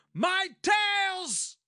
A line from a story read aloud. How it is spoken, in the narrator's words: cried Oberon